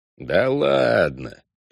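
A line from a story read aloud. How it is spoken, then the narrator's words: Conciliatory grumble. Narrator (Russian): проворчал я примирительно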